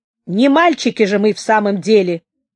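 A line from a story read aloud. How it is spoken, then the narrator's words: Sudden angry remark. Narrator (Russian): вдруг сказал он сердито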